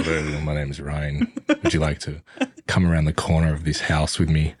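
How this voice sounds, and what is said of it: Very deep voice. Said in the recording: “he's got a very deep voice.”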